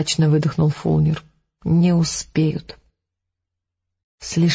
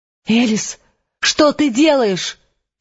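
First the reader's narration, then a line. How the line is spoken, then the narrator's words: Frightened shout. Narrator (Russian): испуганно закричал Фулнер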